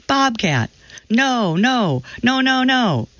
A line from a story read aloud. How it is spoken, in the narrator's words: I let out a screech before yelling